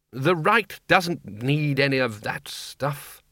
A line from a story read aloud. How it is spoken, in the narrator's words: said Ridcully sharply